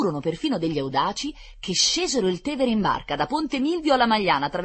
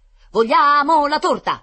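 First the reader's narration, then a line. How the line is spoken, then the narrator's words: Children shouting in dialect. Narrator (Italian): gridavano i ragazzini, ma più probabilmente gridavano in dialetto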